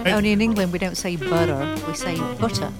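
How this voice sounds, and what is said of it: English accent. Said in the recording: “if you have an English accent”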